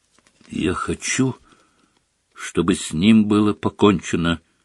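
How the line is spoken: Quiet speech. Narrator (Russian): негромко сказал он

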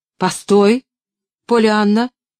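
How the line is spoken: Aunt calling sternly. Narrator (Russian): строго окликнула тетя

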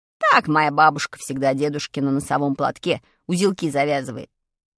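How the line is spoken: Plain. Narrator (Russian): ответил приятель

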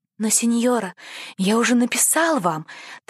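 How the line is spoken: Hurried nervous boy's whisper. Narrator (Russian): торопливо прошептал мальчик, боясь потерять мужество

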